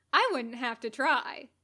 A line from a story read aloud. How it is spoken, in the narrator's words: Katsuko said cheerfully